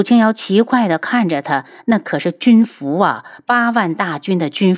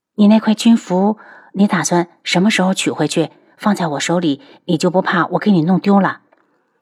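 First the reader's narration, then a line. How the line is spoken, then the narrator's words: Quiet, faint smile. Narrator (Chinese): 他淡笑了下，小声道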